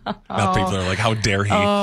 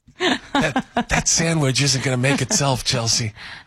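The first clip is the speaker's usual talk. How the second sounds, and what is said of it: Whispering. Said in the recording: “That's why I whispered. Not many people could actually hear what I just said.”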